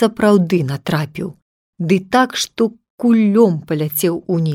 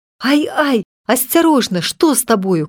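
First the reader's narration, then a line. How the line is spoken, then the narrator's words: Mother's alarmed cry. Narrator (Belarusian): крыкнула маці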